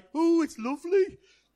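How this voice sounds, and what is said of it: Attempted Birmingham accent. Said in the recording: “someone from Birmingham, and I can't do their accent”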